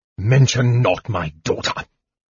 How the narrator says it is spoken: the speaker said in a deep, harsh voice

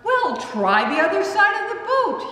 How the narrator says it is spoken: cheerfully suggests

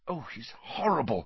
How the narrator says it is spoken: whispered Hermione

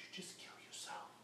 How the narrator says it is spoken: These demons sometimes will speak little whispers in their ear and will say

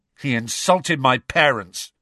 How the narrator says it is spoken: snarled George

